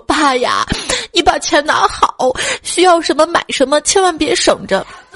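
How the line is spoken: Weeping lament. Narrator (Chinese): 他的两个姑姑一边烧纸一边哭诉说

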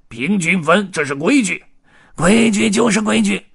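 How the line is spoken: Loud clamoring. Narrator (Chinese): 黑胡子嚷嚷起来

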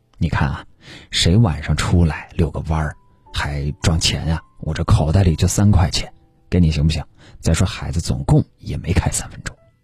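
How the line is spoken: Timid, lowered voice. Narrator (Chinese): 男人似乎怂了，声音低了下来，和女人商量

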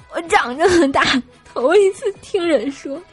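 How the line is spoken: Crying while speaking. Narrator (Chinese): 大师兄就一边哭泣一边跟我说

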